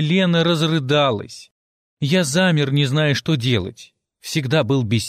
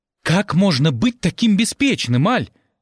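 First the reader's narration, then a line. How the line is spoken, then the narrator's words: Exclamation. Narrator (Russian): воскликнула Елена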